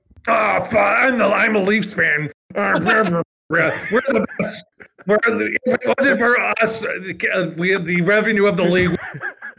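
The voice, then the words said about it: Imitates a hockey fan's voice. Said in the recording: “can you impersonate a Leafs fan for everybody?”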